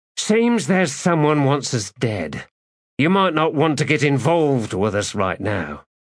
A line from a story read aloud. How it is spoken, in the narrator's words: Sighing, she said to him